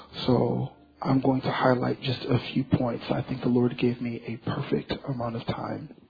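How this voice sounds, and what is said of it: Tired voice. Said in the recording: “pardon my voice. My voice is a little tired”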